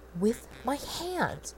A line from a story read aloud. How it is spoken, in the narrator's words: Rodney repeated hysterically